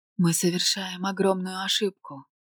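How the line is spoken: Whisper. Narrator (Russian): прошептала я

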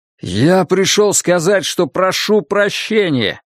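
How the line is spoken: Shouted. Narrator (Russian): крикнул Ларри

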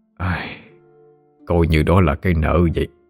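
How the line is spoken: Sighing. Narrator (Vietnamese): ông Đạt thở dài

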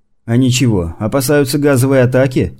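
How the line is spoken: Tense man chuckling. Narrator (Russian): хохотнул доктор, который все еще был на взводе

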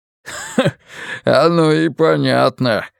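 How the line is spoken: Cook's short chuckle. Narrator (Russian): хохотнул повар-раздатчик

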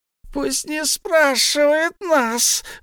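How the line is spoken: Shriek. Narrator (Russian): взвизгнул Голлум

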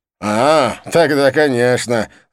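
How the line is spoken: Laughing loudly. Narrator (Russian): захохотал он

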